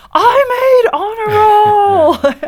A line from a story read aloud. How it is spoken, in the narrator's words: yelling